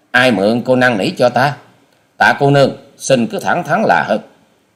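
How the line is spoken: Sharp irritated retort. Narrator (Vietnamese): Hoa sĩ Kiệt sầm ngay nét mặt rồi gắt lời

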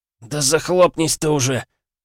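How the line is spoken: Wheezing rasp. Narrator (Russian): прохрипел я

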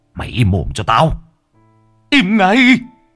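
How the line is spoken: Hissing furiously. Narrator (Vietnamese): Tánh nói như rít lên

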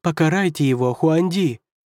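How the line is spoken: Yelling. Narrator (Russian): завопил первый советник

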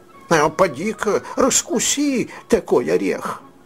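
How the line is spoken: Moaning. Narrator (Russian): они стонали

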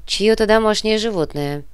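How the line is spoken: Indifferent reply. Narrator (Russian): безразличным голосом отозвался Балдер

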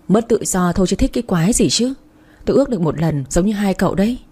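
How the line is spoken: Annoyed sigh. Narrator (Vietnamese): Quân thở dài nói giọng khó chịu

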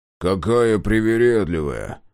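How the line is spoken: Grumble. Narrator (Russian): проворчал Мюррей

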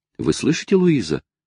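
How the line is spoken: Excited exclamation. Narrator (Russian): воскликнула она в волнении

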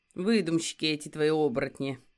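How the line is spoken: Scoffing snort. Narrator (Russian): хмыкнул Сёма

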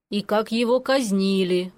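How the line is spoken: Grim reminder. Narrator (Russian): мрачно напомнил дядя

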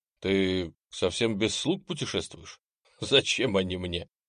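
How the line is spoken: Short laugh. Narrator (Russian): Хохотнул Немченко

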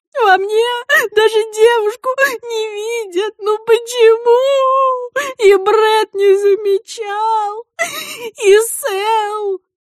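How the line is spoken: Sobbing harder. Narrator (Russian): Произнеся это имя зарыдала с удвоенной силой

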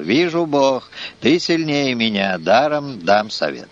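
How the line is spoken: Sighing, humble. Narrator (Russian): сатана вздохнул и смиренно сказал

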